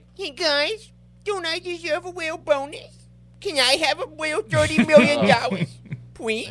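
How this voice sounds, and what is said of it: Whiny baby voice. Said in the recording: “baby voice character”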